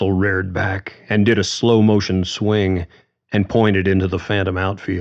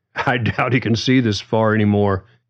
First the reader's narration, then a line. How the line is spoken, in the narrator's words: John laughed with Russell